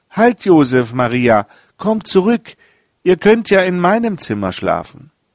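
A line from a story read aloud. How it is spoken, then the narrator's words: Boy calling out. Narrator (German): rannte der Wirtsjunge ihnen nach und rief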